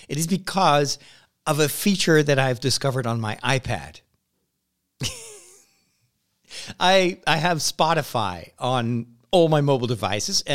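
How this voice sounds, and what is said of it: Slightly hoarse voice. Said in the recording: “maybe you are able to tell it from the way my voice sounds. I'm a little bit hoarse, and it's not because I have a cold.”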